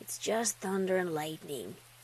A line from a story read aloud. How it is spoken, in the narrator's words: murmured